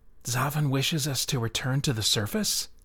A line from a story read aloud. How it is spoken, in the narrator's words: Tranadol whispered to Lyseran